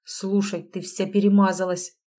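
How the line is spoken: Grumbling. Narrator (Russian): проворчал он

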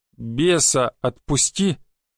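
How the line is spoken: Restrained, trying not to grit teeth. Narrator (Russian): Я старался говорить не сквозь зубы

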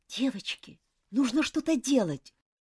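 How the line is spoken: Whispered. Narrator (Russian): прошептала Джоан

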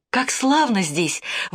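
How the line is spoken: Delighted exclamation. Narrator (Russian): воскликнула она восторженно

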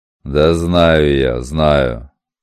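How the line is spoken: Grumble. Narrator (Russian): Буркнул мастер

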